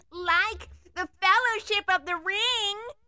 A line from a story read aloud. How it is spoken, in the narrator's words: the two girls screamed, too lovely, dainty